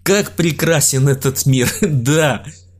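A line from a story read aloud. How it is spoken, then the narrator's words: Loud laughter. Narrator (Russian): Илья в голос расхохотался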